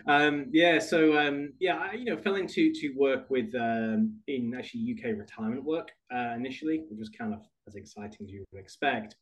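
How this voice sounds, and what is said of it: British accent. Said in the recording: “I was back in the UK, as you could guess from my accent, not a New Jersey accent”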